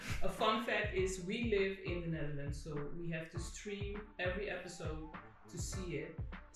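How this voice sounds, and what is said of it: Speaks with a noticeable accent. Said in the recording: “you'll probably hear it from my accent, I think, for sure”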